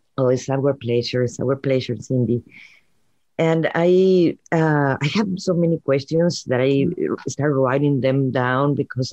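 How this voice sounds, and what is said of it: Cute-sounding accent. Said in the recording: “I love your accent, first of all. It's so cute. You sound so cute.”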